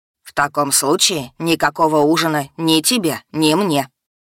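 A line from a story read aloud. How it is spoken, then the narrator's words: Grumbling. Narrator (Russian): проворчал он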